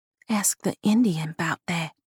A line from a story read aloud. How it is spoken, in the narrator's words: Honeysuckle whispered